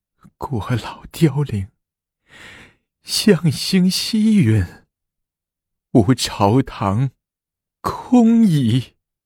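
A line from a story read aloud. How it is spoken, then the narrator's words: Grief-stricken weeping. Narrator (Chinese): 闻此噩耗，武则天哭道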